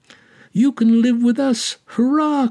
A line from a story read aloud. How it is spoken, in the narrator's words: cried the lame child